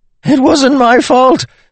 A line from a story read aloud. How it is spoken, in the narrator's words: Templeton screamed